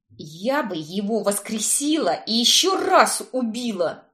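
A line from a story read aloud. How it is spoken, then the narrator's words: Vengeful, through gritted teeth. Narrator (Russian): мстительно процедила я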